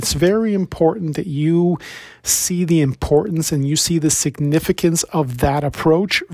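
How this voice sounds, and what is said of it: Hoarse, worn-out voice. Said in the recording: “my voice is a little bit gone. It's been a pretty heavy week of podcast interviews”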